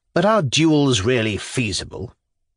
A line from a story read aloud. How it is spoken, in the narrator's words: the General continued with a sneer